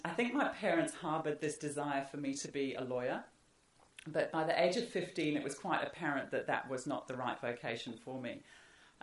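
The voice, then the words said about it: Northeast English accent, South African influence. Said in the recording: “explain my accent ... I grew up in the northeast of England ... my family emigrated to South Africa”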